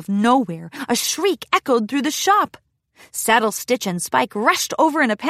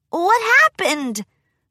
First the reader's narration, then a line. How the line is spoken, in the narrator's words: Spike cried out